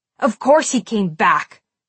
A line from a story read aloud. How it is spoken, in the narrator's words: Scott snapped